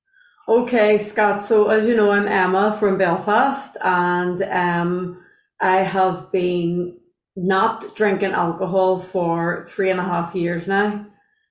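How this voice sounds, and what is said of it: Irish accent. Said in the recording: “I love the accent”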